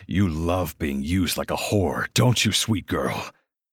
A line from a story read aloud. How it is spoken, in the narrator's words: I growl